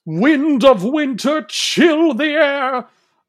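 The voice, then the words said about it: Dramatic, grand character voice. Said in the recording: “my Storm impression? ... you delivered the umph that re- is required ... she sounds like Gandalf. She's so dramatic.”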